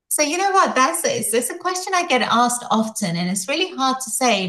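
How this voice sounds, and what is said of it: Speaks with a noticeable non-Boston accent. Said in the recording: “I love your accent, by the way. Incredible. ... we don't have that here in Boston”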